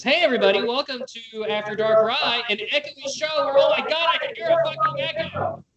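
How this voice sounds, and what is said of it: Yelling loudly. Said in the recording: “Maybe it's because you're yelling.”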